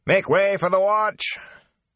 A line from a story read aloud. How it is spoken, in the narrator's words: shouting